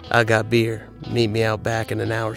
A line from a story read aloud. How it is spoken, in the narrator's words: she said